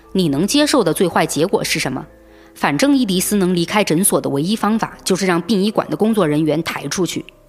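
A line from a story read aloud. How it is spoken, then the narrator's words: Cold, over phone. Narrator (Chinese): 西普曼却在电话那头冷冷地回答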